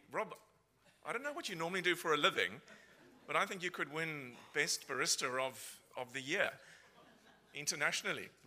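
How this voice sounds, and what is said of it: South African Cape Town accent. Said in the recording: “what's that funny accent that you're hearing? So I'm originally from Cape Town in South Africa ... I don't think my accent has changed”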